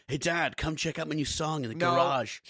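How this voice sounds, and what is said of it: Imitates a young daughter's voice. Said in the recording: “yeah, do that voice ... She wouldn't say song like that.”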